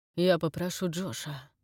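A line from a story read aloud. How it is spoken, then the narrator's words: Hoarse. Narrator (Russian): хрипло сказал Фрэнк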